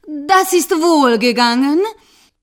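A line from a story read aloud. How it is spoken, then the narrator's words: Cat calling out. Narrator (German): rief die Katze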